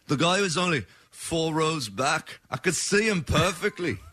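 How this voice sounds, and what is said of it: Put-on Australian accent. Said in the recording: “with that British accent ... I'm doing an Australian. ... I sound like the crocodile hunter.”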